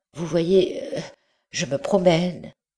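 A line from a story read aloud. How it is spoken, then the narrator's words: Stammering reply. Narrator (French): répondit-il en balbutiant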